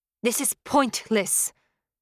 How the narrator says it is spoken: I spat

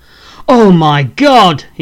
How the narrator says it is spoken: he exclaims

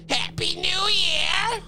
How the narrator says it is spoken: the skinless man screamed

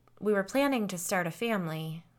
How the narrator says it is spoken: Lisa said sadly

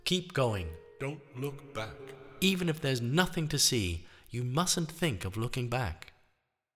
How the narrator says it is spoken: called out

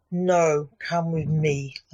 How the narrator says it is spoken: Lance said coldly to his dad

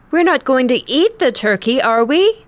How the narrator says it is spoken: I came home in tears and cried out

